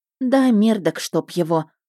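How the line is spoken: Sighed. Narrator (Russian): вздохнула я

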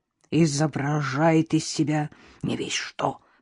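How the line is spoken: Whisper. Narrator (Russian): прошептал мистер Синклер мистеру Льюису

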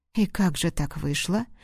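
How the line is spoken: Bewildered mutter. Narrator (Russian): растерянно пробормотал специалист службы снабжения

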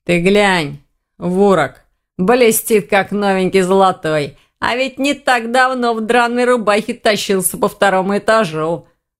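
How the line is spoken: Wolf snorting. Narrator (Russian): хмыкнул волк

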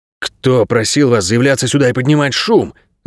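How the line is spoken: Irritated hiss. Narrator (Russian): раздраженно прошипел он

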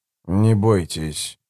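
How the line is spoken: Creaky voice. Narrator (Russian): проскрипел он в ответ

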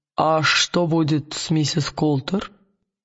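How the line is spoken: Plain. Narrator (Russian): спросил король

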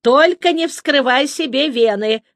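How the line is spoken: Loud laughter. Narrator (Russian): расхохоталась

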